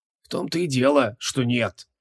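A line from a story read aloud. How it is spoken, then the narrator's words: Bitter creaky rasp. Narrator (Russian): озлобленно проскрипел жрец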